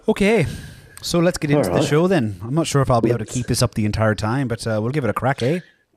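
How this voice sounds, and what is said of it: Put-on Irish accent. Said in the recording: “we're doing Irish ... Are you doing the accent or am I? ... It's all you now.”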